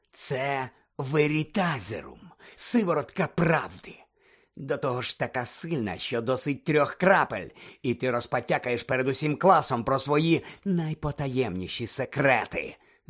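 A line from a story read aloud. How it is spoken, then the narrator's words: Spiteful growl. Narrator (Ukrainian): злісно прогарчав Снейп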